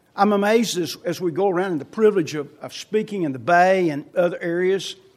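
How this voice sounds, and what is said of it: Non-native foreign accent. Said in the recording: “you notice I have an accent. Have you noticed that? ... Do you think I'm a native Californian? ... Several shaking their head”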